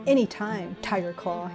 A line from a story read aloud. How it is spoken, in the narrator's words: he spat